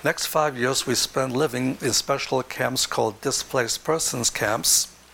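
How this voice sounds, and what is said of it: Accent with German influence. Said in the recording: “those 5 years in Germany will explain the third segment of the accent you're listening to”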